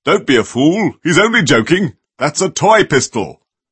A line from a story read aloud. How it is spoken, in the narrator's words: the small man shouted in a very big voice